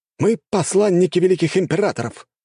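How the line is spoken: Exclaiming. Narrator (Russian): воскликнул

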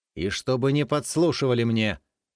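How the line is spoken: Sharp shout. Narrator (Russian): прикрикнул Илья

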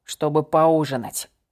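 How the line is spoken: Low-voiced explanation. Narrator (Russian): низким голосом пояснил он

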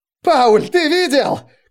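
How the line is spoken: Shouting. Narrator (Russian): кричал Райснер

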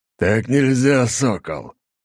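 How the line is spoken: Angry growl. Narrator (Russian): зло рыкнул Ратай

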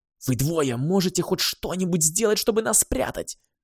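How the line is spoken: Hiss. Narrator (Russian): прошипела Гималая

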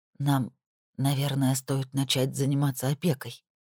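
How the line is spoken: Whisper. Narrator (Russian): прошептала она

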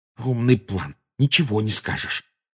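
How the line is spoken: Angry hiss. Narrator (Russian): прошипел Гарри, выплескивая злость на Гермиону

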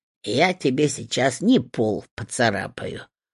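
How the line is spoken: Grumbling hut. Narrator (Russian): пробурчала избушка

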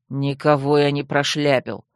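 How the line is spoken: Grumbling. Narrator (Russian): буркнул Таран

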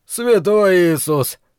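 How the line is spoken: Breathed out. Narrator (Russian): выдохнул Бейкер

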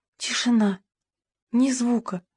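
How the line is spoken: Whisper. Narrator (Russian): прошептала Маргарет

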